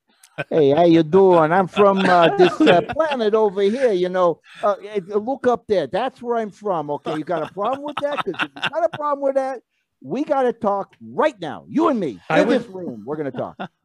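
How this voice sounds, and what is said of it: Put-on New Jersey accent. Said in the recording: “He talks with a New Jersey accent.”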